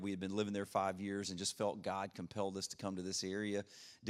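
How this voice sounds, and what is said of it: Slight Louisiana Southern drawl. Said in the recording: “I am from Louisiana ... I've got a little bit of a draw on my accent.”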